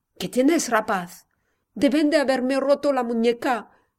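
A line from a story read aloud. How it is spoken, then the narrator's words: Moan. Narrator (Spanish): gimió Javier, casi exánime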